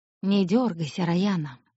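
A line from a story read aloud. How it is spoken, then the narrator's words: Hoarse voice from behind. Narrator (Russian): хрипло сказал Аид за ее спиной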